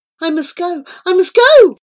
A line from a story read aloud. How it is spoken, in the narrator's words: she cried